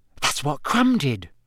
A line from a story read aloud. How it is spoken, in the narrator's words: Hermione whispered